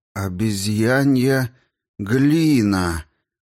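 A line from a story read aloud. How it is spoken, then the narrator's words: Confused drawl. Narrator (Russian): растерянно протянул Байерс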